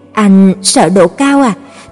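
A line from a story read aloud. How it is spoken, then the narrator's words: Uneasy question. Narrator (Vietnamese): tôi hỏi với giọng bất an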